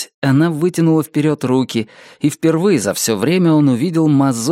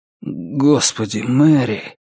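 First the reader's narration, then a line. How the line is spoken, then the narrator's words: Suddenly hoarse. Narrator (Russian): произнес он внезапно охрипшим голосом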